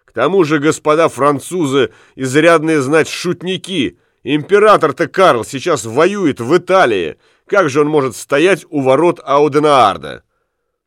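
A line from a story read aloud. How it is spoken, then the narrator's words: Group yelling at full voice. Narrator (Russian): Карл и его свита заорали во все горло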